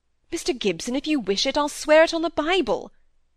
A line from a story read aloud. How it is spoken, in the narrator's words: cried the excitable young man